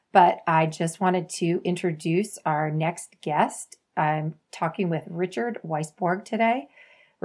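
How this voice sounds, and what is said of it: Slightly scratchy voice. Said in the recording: “my voice is a little scratchy. The allergies are getting to me these days.”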